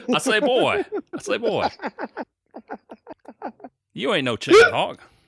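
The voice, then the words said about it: Foghorn Leghorn cartoon rooster voice. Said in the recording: “Foghorn Leghorn ... impersonation ... how authentic it is”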